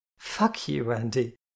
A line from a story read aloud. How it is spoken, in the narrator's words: Tara laughed